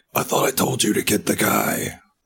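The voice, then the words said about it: Raspy villain character voice. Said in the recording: “a taste of Jigsaw ... very raspy, but it's not very good right now.”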